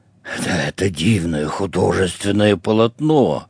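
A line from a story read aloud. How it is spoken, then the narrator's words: Whispered shout. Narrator (Russian): шепотом закричал матрос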